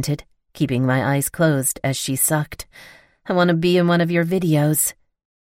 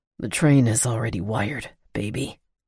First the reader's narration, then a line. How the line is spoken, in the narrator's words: he said in a ragged voice